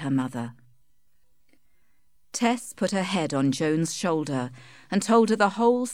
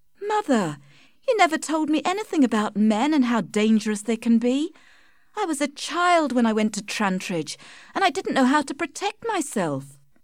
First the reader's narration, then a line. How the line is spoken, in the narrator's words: cried Tess